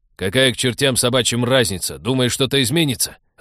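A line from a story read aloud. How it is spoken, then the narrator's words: Irritated interruption. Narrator (Russian): раздраженно перебил спецагент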